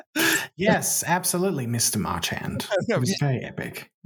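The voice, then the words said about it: Funny character voice. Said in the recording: “doing the funny voice, because you play a character on the show”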